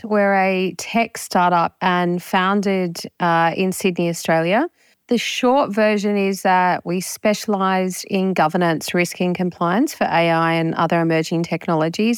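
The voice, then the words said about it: Australian accent. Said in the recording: “you probably can hear I've got an Aussie accent.”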